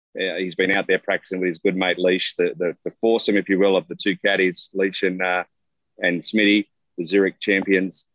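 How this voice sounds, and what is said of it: Australian accent with American tinge. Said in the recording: “that is not a fake accent. I know it sounds, you know, maybe a little mixed. There's a little California in there, maybe a little Chicago, but that is an Australian accent.”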